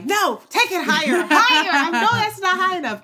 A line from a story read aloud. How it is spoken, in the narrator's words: I was yelling at her like